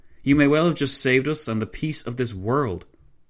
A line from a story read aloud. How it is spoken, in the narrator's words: von Leto Vorbeck exclaimed